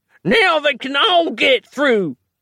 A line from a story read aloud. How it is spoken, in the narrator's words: howled the grey man